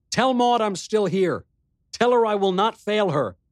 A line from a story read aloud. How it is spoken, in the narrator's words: On an impulse, I called out to him